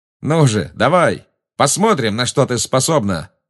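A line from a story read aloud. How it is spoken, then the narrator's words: Exclaimed. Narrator (Russian): воскликнул он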